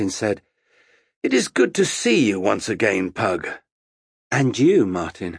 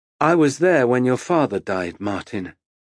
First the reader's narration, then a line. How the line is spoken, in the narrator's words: he said, his voice remaining calm